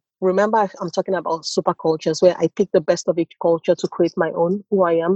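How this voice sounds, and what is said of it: Nigerian accent. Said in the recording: “my accent is very Nigerian, and I grew up in Nigeria”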